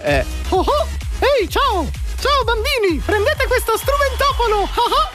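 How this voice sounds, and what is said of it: Cartoon character voice, Goofy. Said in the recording (Italian): “Era Pippo, ovviamente.”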